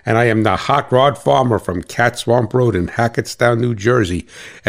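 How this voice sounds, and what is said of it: New Jersey accent. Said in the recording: “with this accent, people know who I am ... a farmer from New Jersey”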